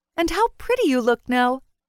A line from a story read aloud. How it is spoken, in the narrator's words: the maid chirped